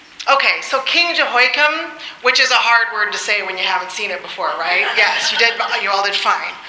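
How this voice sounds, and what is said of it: Usual voice. Nothing is said of it.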